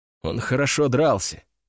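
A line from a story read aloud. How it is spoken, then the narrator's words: Quiet. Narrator (Russian): тихо сказал я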